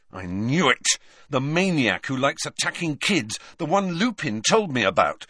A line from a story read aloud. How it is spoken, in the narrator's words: said Harry angrily